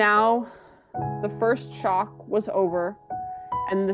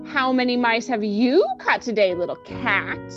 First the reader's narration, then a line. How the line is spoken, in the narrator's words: jeering at him, saying